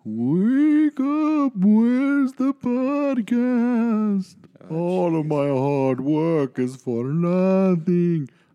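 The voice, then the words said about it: Spooky wailing ghost voice with accent. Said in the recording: “I don't know why I gained an accent in the afterlife ... Vincent Price ... Wailing.”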